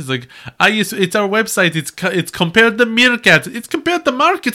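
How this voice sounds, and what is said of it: Imitated meerkat ad character's weird accent. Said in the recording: “they have a weird accent”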